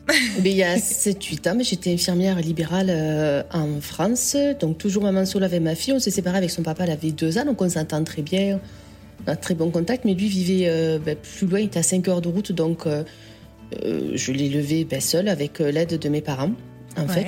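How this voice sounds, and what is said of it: Slight southern French accent. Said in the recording (French): “un petit accent. ... Un petit accent des Suds.”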